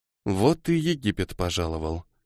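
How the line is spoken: Muttering. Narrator (Russian): пробормотала девушка

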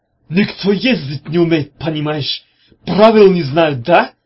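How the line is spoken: Shouting. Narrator (Russian): закричал хан

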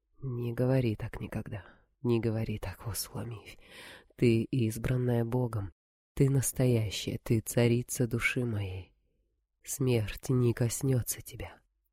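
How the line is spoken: Agitated whisper. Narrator (Russian): царь прошептал взволнованный

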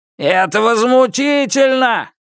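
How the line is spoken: Shouted. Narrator (Russian): крикнул человек

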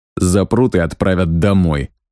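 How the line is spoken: Irritated reply. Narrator (Russian): раздраженно ответил я

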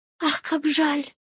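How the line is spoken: Whisper. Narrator (Russian): прошептала Люси

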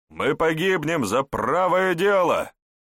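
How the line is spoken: Encouraging smiling shout. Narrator (Russian): с ободряющей улыбкой крикнул ему магистр

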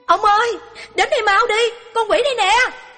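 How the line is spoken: Frightened shout. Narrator (Vietnamese): cô vợ trông thấy nhận ra nó, lập tức la lên

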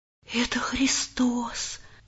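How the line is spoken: Boy's whisper. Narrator (Russian): прошептал мальчик

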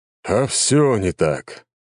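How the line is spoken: Sigh. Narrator (Russian): вздохнул Леонид

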